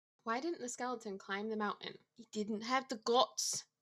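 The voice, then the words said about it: Put-on Scottish accent. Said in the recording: “Did you say that in a Scottish? ... Accent.”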